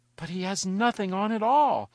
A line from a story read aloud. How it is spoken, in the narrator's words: cried at least the whole people